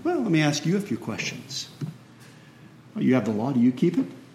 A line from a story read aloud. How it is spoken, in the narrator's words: calmly